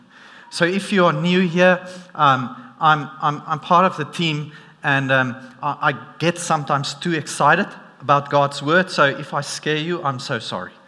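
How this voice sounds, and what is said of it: South African accent. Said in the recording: “my South African accent doesn't help, because sometimes we tend to sound very strict”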